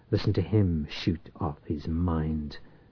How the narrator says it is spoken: Church muttered

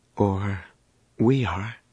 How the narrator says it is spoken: Danny said gravely

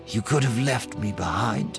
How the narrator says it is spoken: she said quietly

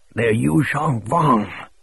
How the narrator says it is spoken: Showalter rasped

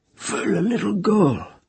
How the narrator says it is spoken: said hoarsely

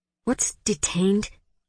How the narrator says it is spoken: Hari whispered to Vera

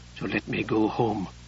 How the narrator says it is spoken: she whispered

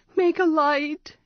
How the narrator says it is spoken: she pleaded

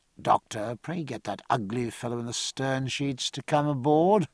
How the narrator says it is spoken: said in an undertone

